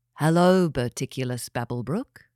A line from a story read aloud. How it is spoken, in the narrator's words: said the being